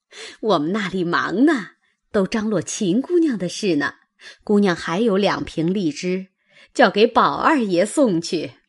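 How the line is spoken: Cheerful old woman. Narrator (Chinese): 那婆子笑嘻嘻的道

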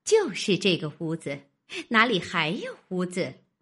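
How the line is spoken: Young wife, laughing. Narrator (Chinese): 那媳妇笑道

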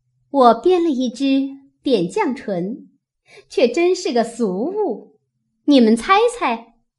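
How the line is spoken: Thoughtful, smiling. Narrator (Chinese): 湘云想了一想，笑道

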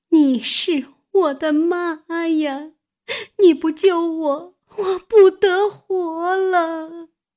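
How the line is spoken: Sobbing. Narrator (Chinese): 呜呜咽咽地哭起来，说道

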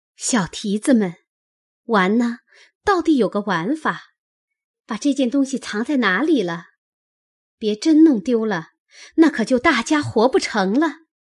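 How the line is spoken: Laughing. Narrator (Chinese): 袭人当作麝月等藏起吓他玩，便向麝月等笑着说道

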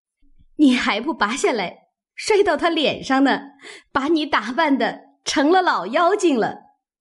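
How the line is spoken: Group laughing. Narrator (Chinese): 众人笑道

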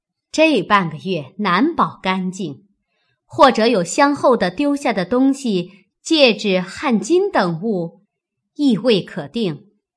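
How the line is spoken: Laughing. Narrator (Chinese): 凤姐又笑道

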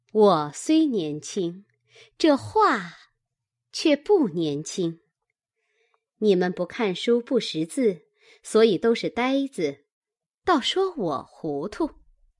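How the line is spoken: Cold sneer. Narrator (Chinese): 惜春冷笑道

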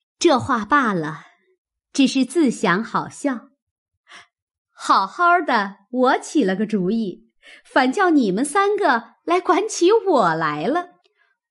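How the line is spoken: Sinister laugh. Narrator (Chinese): 阴笑道

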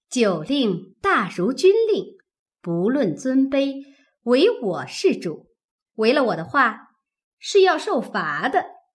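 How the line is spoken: Laughing. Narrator (Chinese): 鸳鸯笑道

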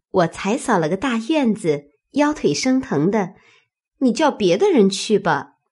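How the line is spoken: Laughing. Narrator (Chinese): 小婵便笑说

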